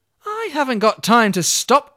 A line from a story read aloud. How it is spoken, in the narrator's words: cried Olga